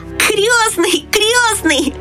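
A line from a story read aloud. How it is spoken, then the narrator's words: Shouting. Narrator (Russian): закричал он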